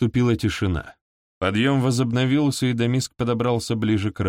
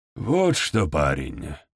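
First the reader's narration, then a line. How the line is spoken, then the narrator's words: Muttered. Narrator (Russian): пробормотал он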